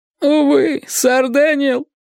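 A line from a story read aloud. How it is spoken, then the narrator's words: Moaning. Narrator (Russian): простонал он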